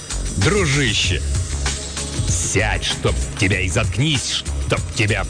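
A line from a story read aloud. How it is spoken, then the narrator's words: Growled. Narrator (Russian): прорычал его агент по соцобеспечению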